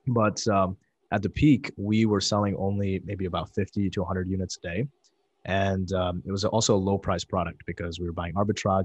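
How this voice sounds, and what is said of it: Slightly sore, strained voice. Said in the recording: “my voice is a little sore today”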